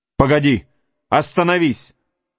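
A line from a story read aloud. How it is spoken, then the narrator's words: Shout. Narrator (Russian): крикнул Хейвард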